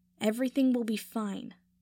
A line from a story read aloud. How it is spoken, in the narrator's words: Draco said firmly